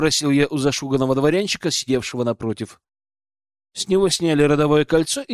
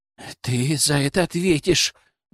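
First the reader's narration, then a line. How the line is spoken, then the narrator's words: Trembling growl. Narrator (Russian): дрожащим голосом прорычал он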